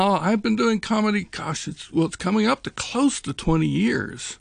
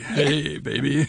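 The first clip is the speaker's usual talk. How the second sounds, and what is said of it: Sexy, sultry radio voice. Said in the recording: “radio voice ... it just automatically become sexy”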